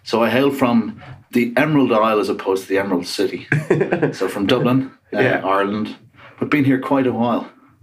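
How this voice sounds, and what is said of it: Irish accent. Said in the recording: “I can tell from your accent that you're not from around these parts ... You've just not lost the accent ... that Irish stubbornness”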